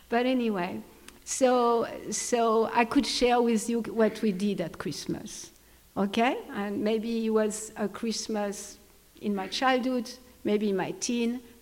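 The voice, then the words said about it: Thick French accent. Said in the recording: “I have a French accent ... I know it's thick”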